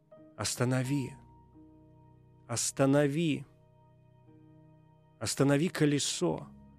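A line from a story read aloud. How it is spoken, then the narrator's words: Distant moaning voice. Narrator (Russian): Стонал голос где-то высоко в ночи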